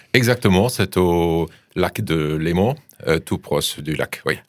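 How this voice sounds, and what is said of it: German accent speaking French. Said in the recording (French): “ce n'est pas un accent euh, euh, suisse, euh, suisse-allemand, mais c'est un accent allemand”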